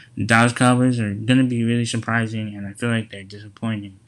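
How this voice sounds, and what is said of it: Imitating Stephen A. Smith. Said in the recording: “Stephen A. always talks about how about them Cowboys in his impression. I'm not really that good”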